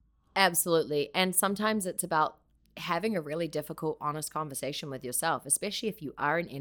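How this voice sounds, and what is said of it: Usual voice. Nothing is said of it.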